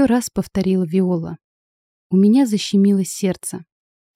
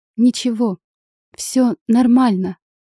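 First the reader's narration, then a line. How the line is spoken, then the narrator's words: Smiling through tears. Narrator (Russian): сквозь слезы улыбнулась я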